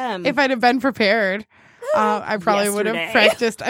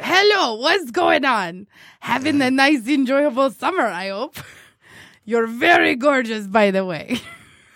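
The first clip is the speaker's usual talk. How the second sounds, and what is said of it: Put-on Borat-style accent. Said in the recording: “can you read it in that accent, please? ... I probably would have practiced Borat”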